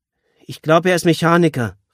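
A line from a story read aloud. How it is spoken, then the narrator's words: Calling back. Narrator (German): rief Julia zurück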